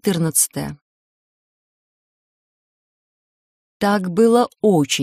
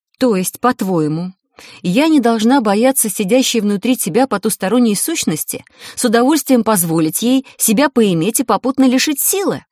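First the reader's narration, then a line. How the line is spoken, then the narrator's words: Loud, sincere indignation. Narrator (Russian): Я возмутилась громко и искренне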